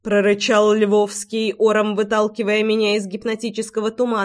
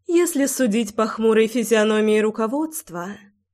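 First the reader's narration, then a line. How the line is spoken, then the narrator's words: Thoughtful young woman. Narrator (Russian): задумчиво проговорила девушка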